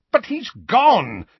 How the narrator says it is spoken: said Uncle Vernon, impatiently, without the slightest sign that the murder of Harry's parents might be a painful topic

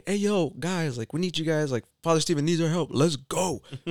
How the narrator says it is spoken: just like yelling, like

